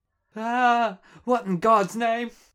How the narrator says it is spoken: screams again, this time with added squeal

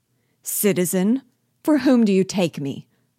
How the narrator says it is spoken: cried Biasu with anger

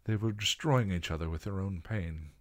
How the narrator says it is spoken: William said

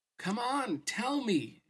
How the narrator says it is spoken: she cried

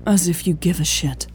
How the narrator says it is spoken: Louise sighed

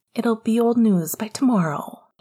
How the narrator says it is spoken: he said soothingly

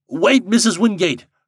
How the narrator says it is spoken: cried Mr

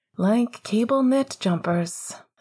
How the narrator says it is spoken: Sirius said with a subdued laugh

